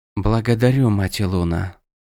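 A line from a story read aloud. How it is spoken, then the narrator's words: Whispered. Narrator (Russian): прошептала Тиранда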